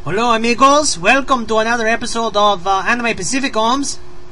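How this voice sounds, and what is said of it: Put-on Mexican Spanish accent. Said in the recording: “your Mexican or Spanish accent is just so amazing”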